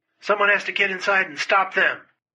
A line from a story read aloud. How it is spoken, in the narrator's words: Chesty yelled